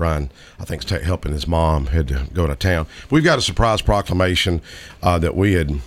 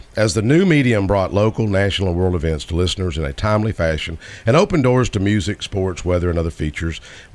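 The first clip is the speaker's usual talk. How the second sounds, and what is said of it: Announcer-style radio voice. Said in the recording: “you got the radio voice ... the radio voice”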